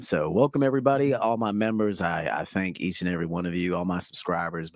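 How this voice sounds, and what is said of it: Slightly off, unwell-sounding voice. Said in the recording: “My voice has been a little off this week. I've been a little bit ill, actually, and it's still lingering”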